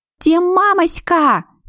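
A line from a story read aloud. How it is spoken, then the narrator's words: Girl shouting. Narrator (Russian): крикнула она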